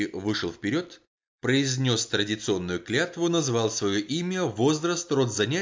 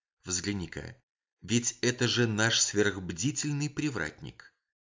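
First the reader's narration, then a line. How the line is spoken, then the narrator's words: Whispered. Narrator (Russian): Мейсон шепотом сказал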